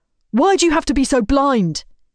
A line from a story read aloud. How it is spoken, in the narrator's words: He exclaims